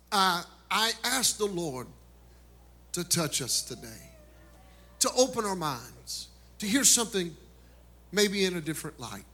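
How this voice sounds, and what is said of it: Rural Kentucky accent. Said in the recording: “Grew up in Beaver Dam, Kentucky ... It's so country ... that's where I get my good accent from”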